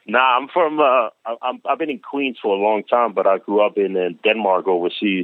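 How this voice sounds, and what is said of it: Slight hard-to-place accent. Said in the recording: “I'm sensing an accent, man. I can't put my finger on it though”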